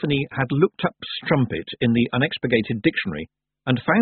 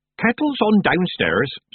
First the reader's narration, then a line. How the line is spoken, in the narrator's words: said Nanny brightly